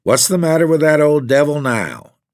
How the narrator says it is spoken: asked Miss Paird

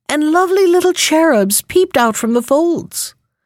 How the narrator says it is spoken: cried another

